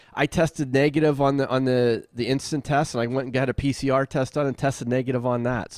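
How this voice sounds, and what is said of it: Slightly hoarse, congested voice. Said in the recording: “you might still hear it in my voice. I'm still a little froggy ... I had like a congestion”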